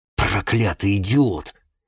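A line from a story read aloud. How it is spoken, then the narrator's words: Hiss. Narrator (Russian): прошипел Охаган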